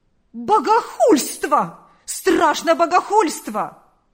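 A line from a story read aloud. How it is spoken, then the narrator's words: Exclaimed. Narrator (Russian): воскликнул он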